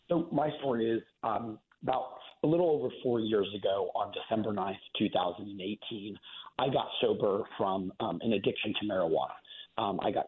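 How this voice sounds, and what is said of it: Hoarse voice. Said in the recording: “I'm just getting over a bit of a hoarse voice here”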